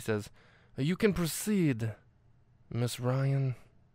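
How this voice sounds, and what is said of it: Imitates a villainous character's voice. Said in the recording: “I'll give him my best impression.”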